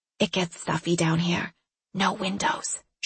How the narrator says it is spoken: she whispered

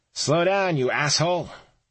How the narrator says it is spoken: A bearded face in a passing multicolored minivan yelled out

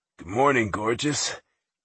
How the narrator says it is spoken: Sounding sexy and sleepy, he rumbled

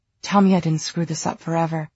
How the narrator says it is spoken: Julian gasped between kisses

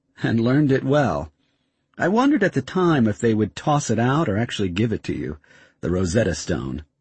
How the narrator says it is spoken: David laughed

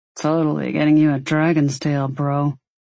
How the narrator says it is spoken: Maddox growl from behind them

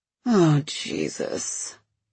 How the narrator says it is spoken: I sigh

